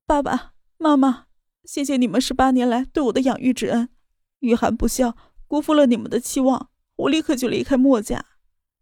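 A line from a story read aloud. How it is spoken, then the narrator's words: Choked with sobs. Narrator (Chinese): 他哽咽的说道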